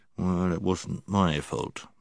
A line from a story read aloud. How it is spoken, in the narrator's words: he only muttered under his breath